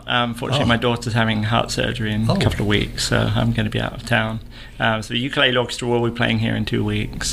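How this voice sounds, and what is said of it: English accent. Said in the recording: “I'm from England... you still haven't picked up a drawl?... No, not too much. Occasionally, maybe just a little bit. But yeah, I try and keep the English accent.”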